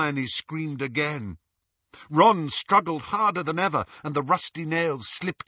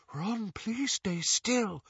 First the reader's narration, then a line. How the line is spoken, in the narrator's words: Luna whispered